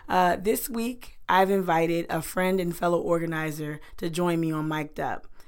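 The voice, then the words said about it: Hoarse, strained voice. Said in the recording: “if you can hear, you can you can tell I, I got a little bit of laryngitis”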